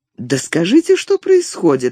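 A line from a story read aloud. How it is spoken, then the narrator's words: Exclaimed, princess. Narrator (Russian): воскликнула княгиня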